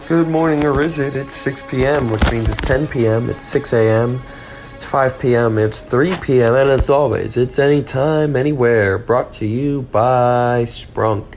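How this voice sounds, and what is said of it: Groggy just-woke-up voice. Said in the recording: “you guys can hear my I just woke up voice right now”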